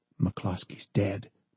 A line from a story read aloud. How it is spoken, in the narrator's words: the guard whispered to John